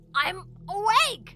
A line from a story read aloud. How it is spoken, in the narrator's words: Link yelled back, angrily